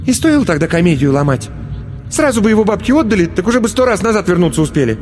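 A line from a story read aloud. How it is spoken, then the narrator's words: Irritated, curt. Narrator (Russian): раздраженно бросила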